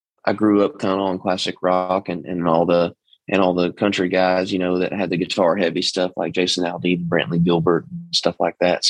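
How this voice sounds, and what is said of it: East Texas country twang. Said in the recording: “I've got a country, a country sound as far as my voice goes. I'm from Texas. I'm from East Texas too. So the twang is in there naturally. I can't really get rid of that”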